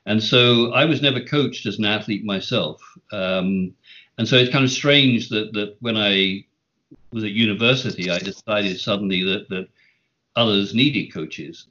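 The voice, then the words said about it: British accent. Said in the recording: “You were born in the UK. You grew up over there. ... accent, that's still there”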